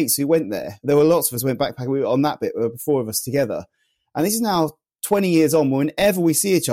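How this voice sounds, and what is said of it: Usual voice. Nothing is said of it.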